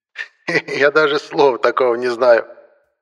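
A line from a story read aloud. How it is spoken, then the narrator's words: Laughing. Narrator (Russian): рассмеялся антиквар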